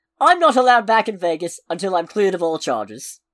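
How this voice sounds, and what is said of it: Poor John Oliver impression. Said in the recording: “the impression I'm about to try to do ... You can hear him saying it ... pardon the terrible impression”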